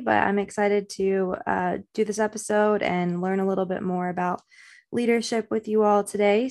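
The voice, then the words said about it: Slightly raspy voice. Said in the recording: “I'm a little bit under the weather today, so that's why my voice sounds a little bit raspy”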